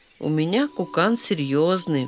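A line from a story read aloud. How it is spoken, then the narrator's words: Wolf cub's sigh. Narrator (Russian): вздохнул волчонок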